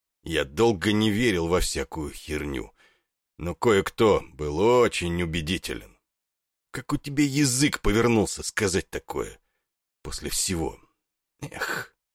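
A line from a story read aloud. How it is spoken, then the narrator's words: Heavy, muffled. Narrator (Russian): сказал, не оборачиваясь, тяжело и глухо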